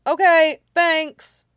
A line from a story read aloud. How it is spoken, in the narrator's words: Midoriya chirped